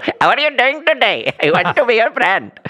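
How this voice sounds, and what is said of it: Imitates another person's voice. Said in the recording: “imitating Dr. Phil”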